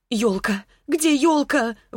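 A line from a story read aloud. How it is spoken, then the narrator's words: Sudden exclamation. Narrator (Russian): воскликнула вдруг Марианна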